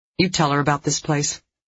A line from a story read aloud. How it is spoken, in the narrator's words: Dee Dee asked evenly